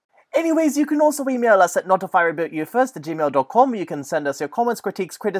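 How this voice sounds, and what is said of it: Usual voice. Nothing is said of it.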